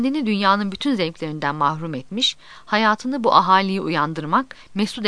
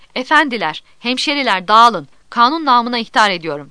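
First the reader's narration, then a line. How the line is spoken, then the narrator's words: Shouting. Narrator (Turkish): diye bağırdığı işitildi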